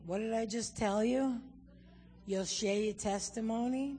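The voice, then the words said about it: New York Jewish accent. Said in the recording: “God spoke to me in a New York Jewish accent”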